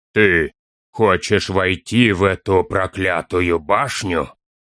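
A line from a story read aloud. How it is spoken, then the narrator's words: Booming surprised old voice. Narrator (Russian): прогудел над ними удивленный голос старого Энта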